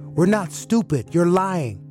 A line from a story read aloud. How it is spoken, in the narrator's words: I yelled out